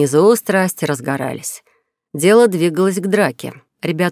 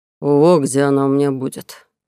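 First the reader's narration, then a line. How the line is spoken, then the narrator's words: Growling. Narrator (Russian): прорычал он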